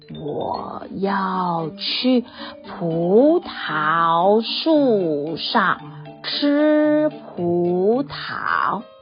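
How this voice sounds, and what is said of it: Very slow drawn-out speech. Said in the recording (Chinese): “蜗牛用很慢很慢的声音说”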